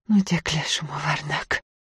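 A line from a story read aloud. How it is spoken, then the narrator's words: Nervous girl's whisper. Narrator (Russian): Девушка судорожно сглотнула, прошептала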